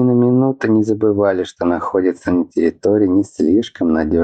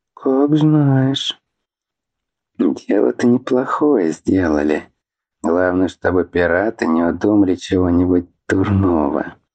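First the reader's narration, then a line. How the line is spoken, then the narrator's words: Wary mutter. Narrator (Russian): пробормотал с опаской Абран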